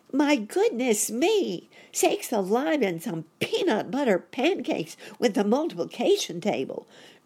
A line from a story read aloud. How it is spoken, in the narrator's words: cried Sammy